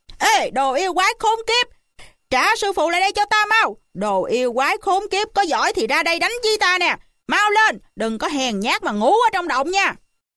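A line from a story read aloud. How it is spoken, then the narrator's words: Yelling. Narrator (Vietnamese): hò hét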